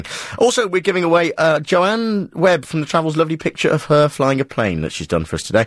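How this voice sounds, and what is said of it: North East English accent. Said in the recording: “I think you're from Durham ... I recognise your accent. And you speak like Adrian Allen, who is also from the North East.”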